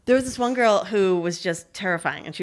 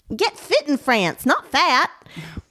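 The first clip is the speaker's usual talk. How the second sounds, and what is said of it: Texan accent. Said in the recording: “she was from Texas ... She had this accent, so I'd always read them like”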